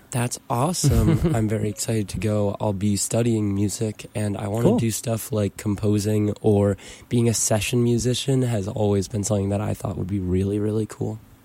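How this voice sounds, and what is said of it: Strained, worn-out voice. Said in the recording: “My voice is currently a bit shot.”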